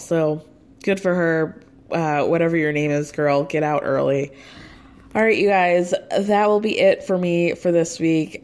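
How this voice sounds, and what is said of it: Hoarse, strained voice. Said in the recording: “Losing my voice yet again.”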